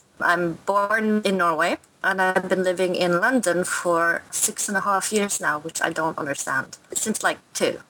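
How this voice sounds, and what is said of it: Mixed Norwegian and London accent. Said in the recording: “confused by my accents ... So you've got a melding of the accents.”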